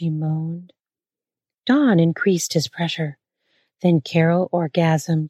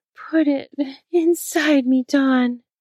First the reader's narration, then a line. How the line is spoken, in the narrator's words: Carol moaned louder